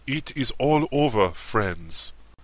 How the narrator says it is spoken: he said in his gentle tones, while a mild expression once more reigned on his comical features

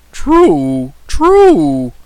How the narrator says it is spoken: exclaimed the Boolaroo enthusiastically

